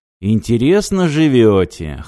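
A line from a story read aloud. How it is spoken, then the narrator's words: Snort. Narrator (Russian): хмыкнул Радим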